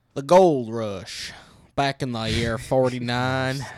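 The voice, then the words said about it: Put-on cowboy accent. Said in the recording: “In a cowboy accent?”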